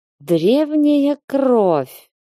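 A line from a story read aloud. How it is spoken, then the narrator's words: Drawl. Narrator (Russian): протянул Руперт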